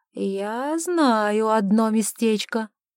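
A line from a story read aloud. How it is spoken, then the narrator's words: Affectedly jaded drawl. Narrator (Russian): протянул Чарльз, стараясь казаться искушенным и пресыщенным удовольствиями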